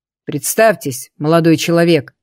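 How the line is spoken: Menacing voice. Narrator (Russian): грозно произнес

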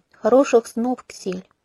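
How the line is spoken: Mumbling. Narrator (Russian): бело пробормотала

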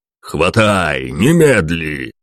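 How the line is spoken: Roaring detective. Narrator (Russian): проревел сыщик

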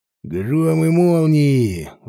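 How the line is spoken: Roaring. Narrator (Russian): взревел его оппонент

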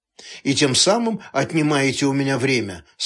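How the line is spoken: Plain. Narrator (Russian): сказал Лапшис

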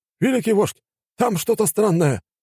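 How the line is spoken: Exclaiming. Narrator (Russian): воскликнул

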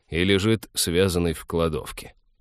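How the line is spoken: Grumbling. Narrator (Russian): проворчал капитан

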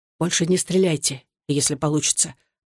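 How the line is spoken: Whisper. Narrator (Russian): прошептал Александр

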